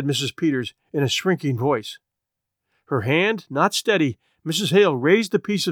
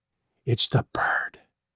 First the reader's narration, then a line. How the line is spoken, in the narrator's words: she whispered